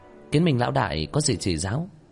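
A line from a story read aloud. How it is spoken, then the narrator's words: Feigned innocent smile. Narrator (Vietnamese): Nguyên Tịch ... giả bộ nghe như không hiểu, mỉm cười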